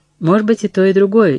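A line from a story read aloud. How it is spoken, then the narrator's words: Sincere laughter. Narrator (Russian): искренне рассмеялась Катрин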